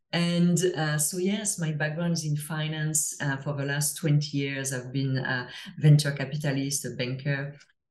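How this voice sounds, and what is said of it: French accent. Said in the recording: “as I'm sure you can hear to my accent, I'm, I'm from France originally”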